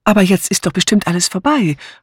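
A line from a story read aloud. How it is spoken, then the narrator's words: Calling out. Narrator (German): rief Mrs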